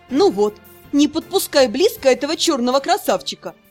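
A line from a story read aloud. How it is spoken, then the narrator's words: Laughing. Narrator (Russian): засмеялась Шиа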